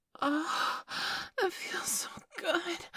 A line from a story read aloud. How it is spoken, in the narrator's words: I gasped